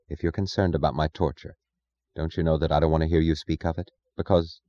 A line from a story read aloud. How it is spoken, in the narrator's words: she said, her voice low